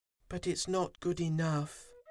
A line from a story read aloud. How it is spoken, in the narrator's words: Fuzzy sighed